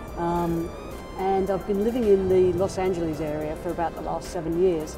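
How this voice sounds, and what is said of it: Non-American accent. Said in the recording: “As you can probably tell from my accent, I'm not originally from these shores”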